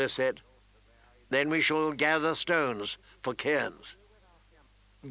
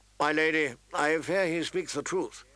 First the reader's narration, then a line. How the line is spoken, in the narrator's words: Sir Roderick said wearily